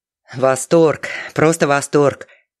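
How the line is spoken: Mumbling. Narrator (Russian): бормотал он

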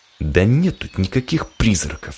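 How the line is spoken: Hissed. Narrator (Russian): зашипел Федя

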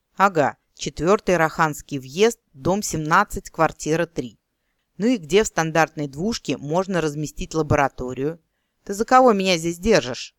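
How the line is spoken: Angry hiss. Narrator (Russian): зло прошипел эльф

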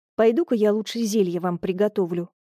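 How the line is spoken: Muttering. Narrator (Russian): пробормотала я

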